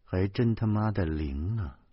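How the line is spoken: Exasperated burst of laughter. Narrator (Chinese): 我气的，我气的扑哧一声就笑出来了

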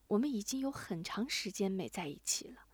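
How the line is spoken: Low, quiet. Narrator (Chinese): 他低下头，低声说

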